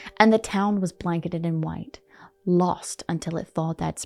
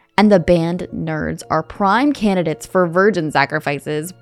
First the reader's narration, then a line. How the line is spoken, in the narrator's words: Brian yelled